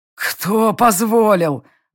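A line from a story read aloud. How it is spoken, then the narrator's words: Wheezed. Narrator (Russian): просипел Гордуил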